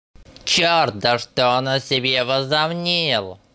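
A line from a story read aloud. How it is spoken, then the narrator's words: Angry complaining. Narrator (Russian): Сердито жаловался, вероятно, злясь на себя, что он не ровня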